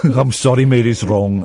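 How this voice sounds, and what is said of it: Put-on Welsh accent. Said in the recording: “That's me doing a Welsh accent.”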